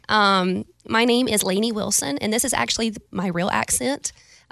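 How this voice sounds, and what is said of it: Weak put-on Valley girl accent. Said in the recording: “I can do a Valley girl ... that almost isn't even Valley girl. It's almost just Iowa. Normal, no accent.”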